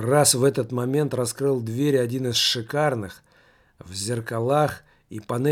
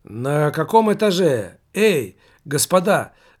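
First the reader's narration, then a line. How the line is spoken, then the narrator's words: Shout from elevator. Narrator (Russian): закричал им из открытой кабины лифта знакомый незнакомец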